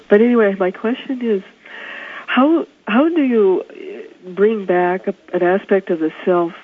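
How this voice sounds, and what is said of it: Hoarse, congested voice. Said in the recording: “I have laryngitis. I have a bad cold.”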